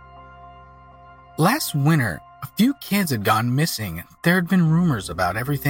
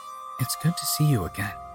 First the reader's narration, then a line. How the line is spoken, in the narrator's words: Zach said softly